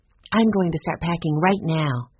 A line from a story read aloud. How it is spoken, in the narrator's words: Jesse said